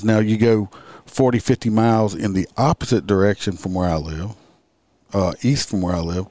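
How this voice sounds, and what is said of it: Country accent. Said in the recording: “everybody says I sound like I got a country accent”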